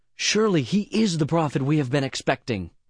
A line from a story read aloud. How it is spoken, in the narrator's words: When the people saw this miraculous sign, they exclaimed